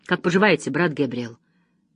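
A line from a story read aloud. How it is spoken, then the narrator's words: Nervous trembling mutter. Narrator (Russian): Нервно дрожащими пальцами он пробормотал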